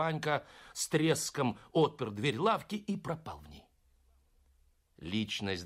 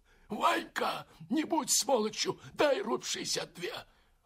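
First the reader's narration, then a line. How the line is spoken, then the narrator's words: Hoarse rasp. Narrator (Russian): Второй захрипел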